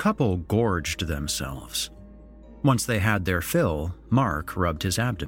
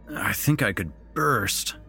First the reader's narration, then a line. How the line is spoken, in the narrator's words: he groaned